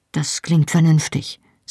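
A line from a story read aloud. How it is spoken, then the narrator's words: Said with a weak smile. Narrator (German): sagte ich und versuchte schwach zu lächeln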